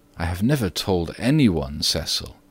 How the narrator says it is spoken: said Virginia gravely

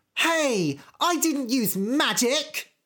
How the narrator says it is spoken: shouted Goldilocks

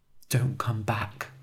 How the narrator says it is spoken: whispered

